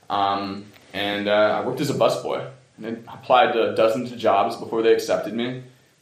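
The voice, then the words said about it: Washington, D.C. accent. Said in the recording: “I'm from Washington, D.C., if you can't tell from my accent. I ain't a native Vermonter”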